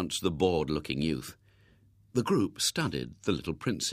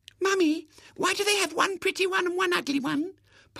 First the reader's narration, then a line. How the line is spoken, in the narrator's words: piped the youngest spectator